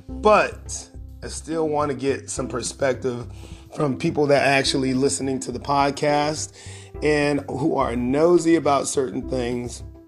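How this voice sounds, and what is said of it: Strained, worn-out hoarse voice. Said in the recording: “my voice is kind of jacked up ... has a tendency to wear a brother's throat down”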